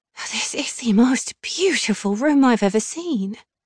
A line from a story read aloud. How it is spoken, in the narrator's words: breathed